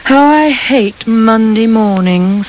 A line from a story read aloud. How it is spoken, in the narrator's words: sighed Vanessa